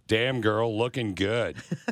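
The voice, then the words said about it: Deep, deliberately sexy voice. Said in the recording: “Dude, you got great pipes ... in your sexiest voice possible”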